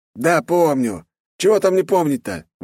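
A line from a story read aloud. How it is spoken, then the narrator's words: Exclaimed. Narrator (Russian): воскликнул он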